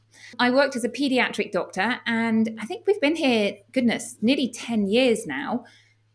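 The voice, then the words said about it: British English accent. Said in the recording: “As you may tell from my accent, I'm from the United Kingdom. I'm from England”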